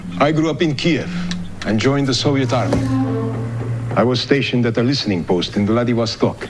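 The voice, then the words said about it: Terrible fake Russian accent. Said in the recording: “it's a terrible Russian accent.”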